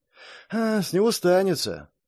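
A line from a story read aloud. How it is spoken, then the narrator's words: Sigh. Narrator (Russian): вздохнул Элмерик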